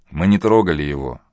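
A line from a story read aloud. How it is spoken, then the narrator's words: Gloomy reply. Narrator (Russian): мрачно отозвался Василий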